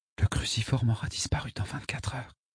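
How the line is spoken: Whispered. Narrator (French): chuchota mon ami

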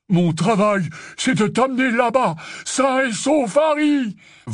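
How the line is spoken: Bellowed. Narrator (French): vociféra Hagrid

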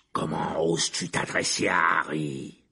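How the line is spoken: Roared. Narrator (French): Rugit Black

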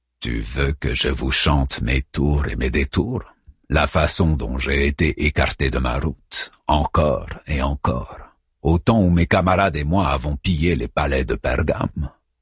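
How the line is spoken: Gentle voice. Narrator (French): répondit-il d'une voix douce

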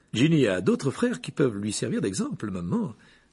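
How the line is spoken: Superior tone. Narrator (French): dit Percy d'un ton supérieur

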